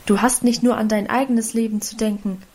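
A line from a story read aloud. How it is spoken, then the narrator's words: Plain. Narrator (German): antwortete der Vater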